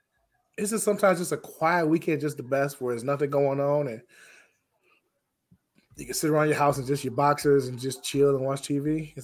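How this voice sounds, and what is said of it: Rough, hoarse voice. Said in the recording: “my voice is a little rough today ... my voice is gone”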